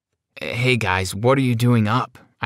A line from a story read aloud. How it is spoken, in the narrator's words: I asked in a fake, groggy voice